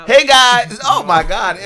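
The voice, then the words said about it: Screaming, very loud high-energy voice. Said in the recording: “why was I screaming? I'm screaming. ... There goes my ears.”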